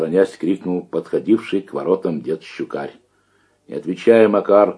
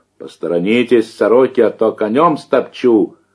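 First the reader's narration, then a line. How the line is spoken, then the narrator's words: Playful shout. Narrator (Russian): шутливо крикнул Макар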